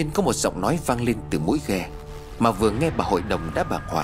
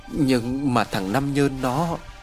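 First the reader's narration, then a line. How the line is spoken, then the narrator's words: Trembling old woman. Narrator (Vietnamese): Bà hội đồng vẫn còn run rẩy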